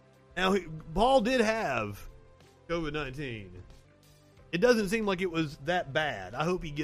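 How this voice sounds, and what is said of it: Usual voice. Nothing is said of it.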